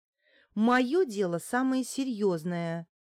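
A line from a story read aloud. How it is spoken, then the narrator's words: Childishly offended exclamation. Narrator (Russian): с детской обидой воскликнула Неделькина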